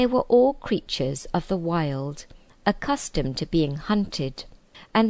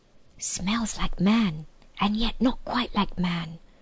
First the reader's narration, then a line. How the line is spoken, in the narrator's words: whispered Truffle Hunter